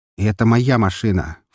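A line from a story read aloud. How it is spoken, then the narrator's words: Offended snort. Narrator (Russian): фыркнул я, напустив на себя оскорбленный вид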